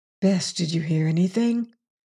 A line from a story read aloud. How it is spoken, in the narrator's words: whispered